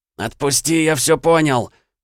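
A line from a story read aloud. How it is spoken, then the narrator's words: Hoarse, hateful rasp. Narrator (Russian): прохрипел Семён, с нескрываемой ненавистью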